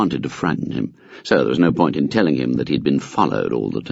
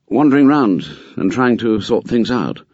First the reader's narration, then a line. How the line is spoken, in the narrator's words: He said gloomily